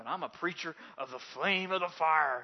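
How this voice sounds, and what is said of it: Booming preacher voice. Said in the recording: “you get your good preacher voice going”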